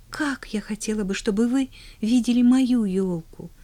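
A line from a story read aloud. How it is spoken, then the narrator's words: Sighing girl. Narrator (Russian): Вздохнула девочка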